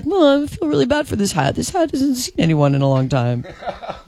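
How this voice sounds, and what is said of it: Cutesy puppy-dog-like voice. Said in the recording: “Was that your impression? That sounds like a puppy dog.”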